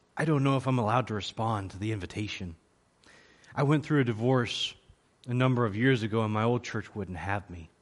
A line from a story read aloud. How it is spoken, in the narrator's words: leaned forward and whispered in my ear